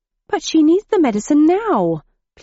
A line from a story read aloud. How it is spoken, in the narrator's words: pleaded Mr